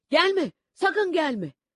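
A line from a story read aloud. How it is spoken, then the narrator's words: Shouting. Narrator (Turkish): diye bağırıyordu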